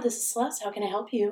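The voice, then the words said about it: Polite customer service phone voice. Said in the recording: “my customer service voice”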